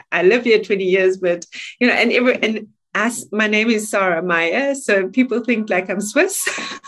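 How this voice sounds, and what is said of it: South African accent. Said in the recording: “Was that South African? ... I'm South African. I am South African.”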